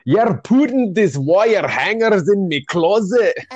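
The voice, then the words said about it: Put-on Scottish accent. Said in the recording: “I put on a weird accent, didn't I? ... the Scottish accent,”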